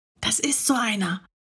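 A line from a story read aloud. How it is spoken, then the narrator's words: Whispering. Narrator (German): flüsterte Paul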